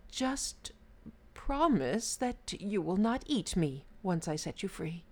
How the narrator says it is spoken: The Brahman timidly replied

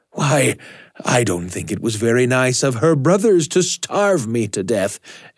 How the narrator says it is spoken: exclaimed the ghost

